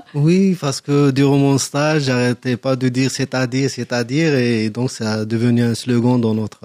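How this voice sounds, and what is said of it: Algerian-accented French. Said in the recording (French): “vous avez un accent, un accent ... je suis euh, algérien”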